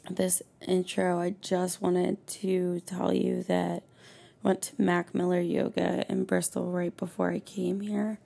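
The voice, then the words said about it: Hoarse, strained voice. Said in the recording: “I'm clearly losing my voice because of the salt water”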